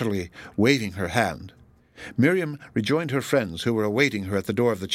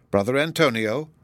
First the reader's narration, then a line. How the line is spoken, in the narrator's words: exclaimed the sacristan